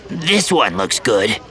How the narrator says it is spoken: More loudly, he said

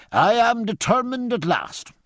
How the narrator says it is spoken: cried Stephen

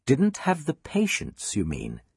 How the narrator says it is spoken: Miss Mary replied kindly, but firmly

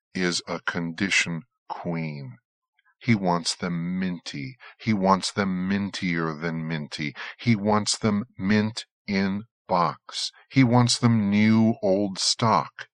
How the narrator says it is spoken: said Elliot, speaking slowly for stress

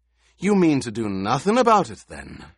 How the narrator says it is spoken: Halleck sneered

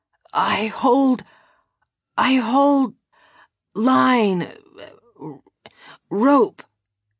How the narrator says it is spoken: she stammered

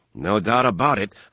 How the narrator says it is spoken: Han muttered

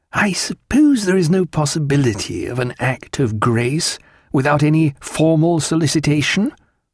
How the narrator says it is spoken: After a pause, Stephen said hesitantly

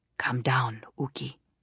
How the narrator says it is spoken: Odiedin murmured

